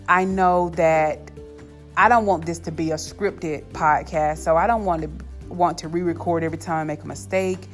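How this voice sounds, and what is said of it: Southern US accent. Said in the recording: “I'm also from the South, so I'm sure you can hear my Southern accent”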